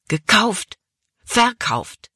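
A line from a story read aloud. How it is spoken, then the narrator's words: Angry burst. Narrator (German): Caleb stieß die Worte wütend hervor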